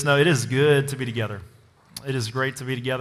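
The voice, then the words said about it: Strained voice. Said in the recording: “My voice is also a little strained”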